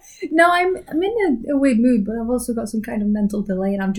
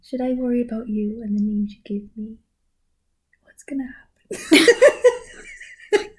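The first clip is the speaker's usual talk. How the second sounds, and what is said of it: Whispering. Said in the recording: “I don't know if the mic can hear you whispering.”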